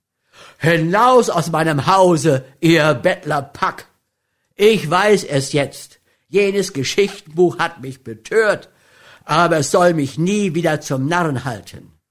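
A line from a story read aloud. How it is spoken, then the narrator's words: Indignant, angry shout. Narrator (German): Da schwoll dem empörten Spannen der Mut, und in der Regung des Augenblicks rief er voll edlen Zornes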